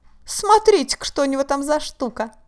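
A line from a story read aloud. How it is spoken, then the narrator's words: Loud guffawing. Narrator (Russian): И давай хохотать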